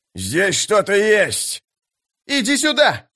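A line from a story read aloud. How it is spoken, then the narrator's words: Yelled. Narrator (Russian): завопил Истин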